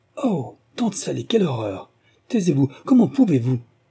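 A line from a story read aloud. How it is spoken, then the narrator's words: Exclaiming in chorus. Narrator (French): s'écrièrent en chœur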